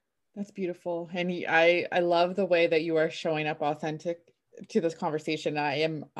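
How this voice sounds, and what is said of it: Emotional, near tears. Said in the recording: “getting emotional ... I'm like tearing up”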